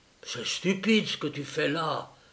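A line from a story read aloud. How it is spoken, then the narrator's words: Low voice. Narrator (French): lui dit le président du club à voix basse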